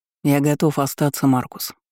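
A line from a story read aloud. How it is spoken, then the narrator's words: Calm. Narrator (Russian): спокойно сказал Яхтер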